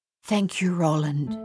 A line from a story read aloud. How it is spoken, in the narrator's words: Madame Chassis whispered